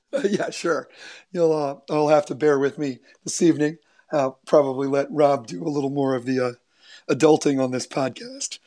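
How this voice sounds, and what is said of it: Weak, worn-out voice. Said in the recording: “As if anybody can't tell, my voice has not come back from Saturday”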